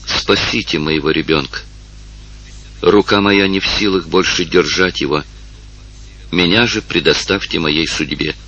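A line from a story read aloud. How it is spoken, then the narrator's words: Barely audible desperate whisper. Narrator (Russian): едва слышно прошептала несчастная женщина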